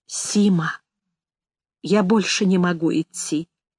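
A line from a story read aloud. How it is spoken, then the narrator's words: Sudden quiet speech. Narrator (Russian): вдруг тихо сказал Игорь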